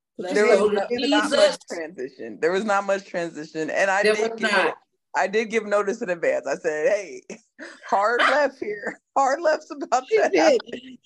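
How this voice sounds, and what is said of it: Hoarse, worn-out voice. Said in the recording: “If it sounds like my voice is gone”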